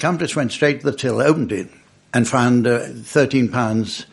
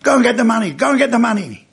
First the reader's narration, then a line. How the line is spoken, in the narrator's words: the guy shouted to his accomplice